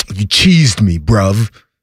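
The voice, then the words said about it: Put-on Toronto accent, British-tinged slang. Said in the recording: “I don't like their accents ... a little bit of the British thing going on ... they've got like Canadian, they've got like a little French, they've got a little bit of a British thing”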